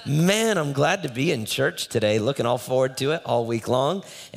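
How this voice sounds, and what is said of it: Rough, hoarse voice. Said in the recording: “my voice is a little rough today”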